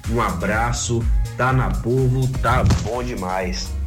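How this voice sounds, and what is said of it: Distinct Bahian Portuguese accent. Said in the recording (Portuguese): “ele tem um sotaque baiano diferente. É de Planalto mesmo esse sotaque”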